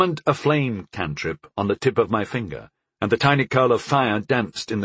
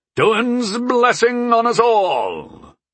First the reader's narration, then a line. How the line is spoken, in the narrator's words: bellowed Sayakay, who got a little more religious, I'd noticed, when he was going into battle